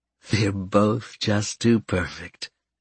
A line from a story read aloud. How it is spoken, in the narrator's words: Karen murmured